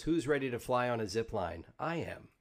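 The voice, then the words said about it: Imitation of Pathfinder's voice. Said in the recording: “do the Pathfinder voice.”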